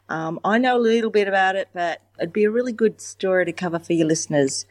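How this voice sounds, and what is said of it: Australian accent. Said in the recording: “Beautiful accent. We love our Australian listeners.”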